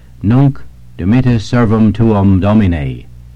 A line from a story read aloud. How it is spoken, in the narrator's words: with great joy, he exclaimed